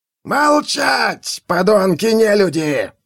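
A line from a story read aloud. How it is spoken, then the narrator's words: Furious yell. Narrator (Russian): заорал охотник на ведьм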